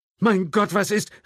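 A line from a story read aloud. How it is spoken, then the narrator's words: Called out. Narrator (German): rief jemand neben Michelle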